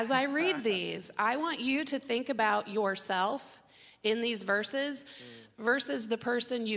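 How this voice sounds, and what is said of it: Usual voice. Nothing is said of it.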